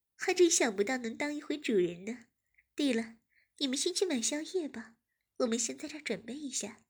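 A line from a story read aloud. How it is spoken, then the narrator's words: Said with a smile. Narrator (Chinese): 燕子笑了笑，便说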